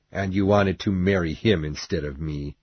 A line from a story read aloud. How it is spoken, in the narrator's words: said Heathcliff coldly